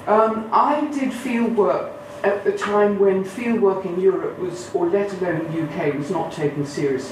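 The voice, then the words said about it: Upper middle class English accent. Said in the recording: “I have got this terrible upper middle class accent that I acquired at a terrible boarding school”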